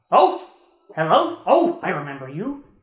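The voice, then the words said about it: Character impression voice. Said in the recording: “Is that your Char impression? ... For once, we don't sound the same. There's a difference in our voice.”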